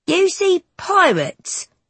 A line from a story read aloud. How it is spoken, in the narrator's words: one of them hollers